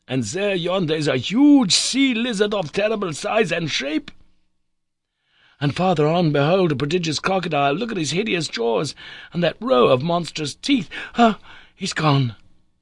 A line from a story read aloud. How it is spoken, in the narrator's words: cried the agitated professor